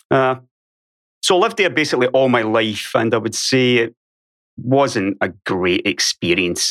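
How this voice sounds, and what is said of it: Scottish accent, sometimes mistaken for Irish. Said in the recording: “I was born on Ayrshire on the west coast of Scotland. That's probably why some people confuse my accent with Irish as well ... so there might be a little bit of Irish in there as well”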